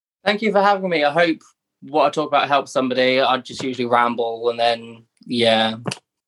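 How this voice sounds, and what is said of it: Non-American accent. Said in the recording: “how excited I am to just listen to your accent ... I think to Americans is like, it's literally so romantic.”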